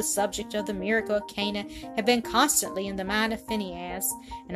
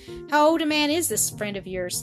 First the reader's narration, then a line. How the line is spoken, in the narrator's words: he asked